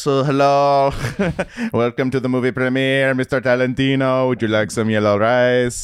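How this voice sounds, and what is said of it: Put-on Persian accent. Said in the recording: “Into an accent. ... Your Farsi is better.”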